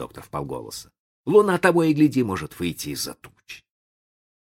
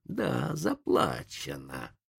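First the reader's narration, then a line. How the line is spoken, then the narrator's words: Hissing. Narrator (Russian): прошипел индеец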